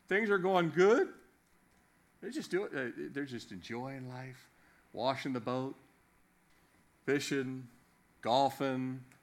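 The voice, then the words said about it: Slips into a Southern accent. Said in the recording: “Did I develop a southern accent?”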